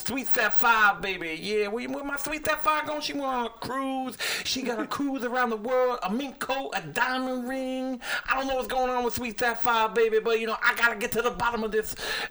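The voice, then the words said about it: Imitates another person's voice. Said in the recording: “That's a real good Dusty impersonation.”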